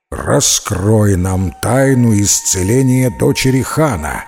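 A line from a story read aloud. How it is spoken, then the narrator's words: Menacing demand. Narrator (Russian): грозно сказал старший джинн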